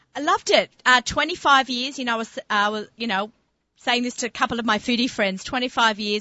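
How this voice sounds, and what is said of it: Australian accent. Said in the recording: “my little Aussie friend with her funny, funny accent”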